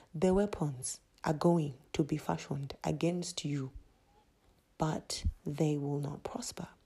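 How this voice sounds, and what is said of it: Put-on Zimbabwean accent. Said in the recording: “Let me get into my Zimbabwean accent.”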